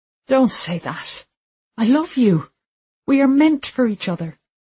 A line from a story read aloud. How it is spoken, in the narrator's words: he pleaded